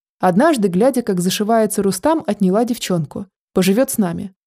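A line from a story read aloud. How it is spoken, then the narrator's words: Plain. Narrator (Russian): сказала она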